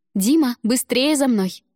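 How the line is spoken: Joyful shout, woman. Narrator (Russian): я радостно закричала

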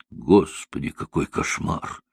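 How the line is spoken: Whispered. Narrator (Russian): прошептала Эмилия

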